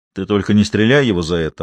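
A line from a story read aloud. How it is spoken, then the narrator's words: Grim joking. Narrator (Russian): мрачно пошутил Груздиков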